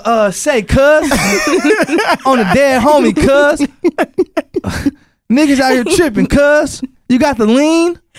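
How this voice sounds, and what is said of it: Put-on California accent. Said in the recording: “Give us your California accent”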